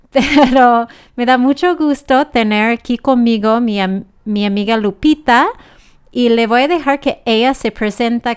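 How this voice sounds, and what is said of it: Noticeable foreign accent in Spanish. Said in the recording (Spanish): “van a tener que aguantar mi acento.”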